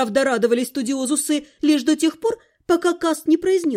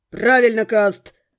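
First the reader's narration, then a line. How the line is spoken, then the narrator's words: Growl. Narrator (Russian): рыкнул кто-то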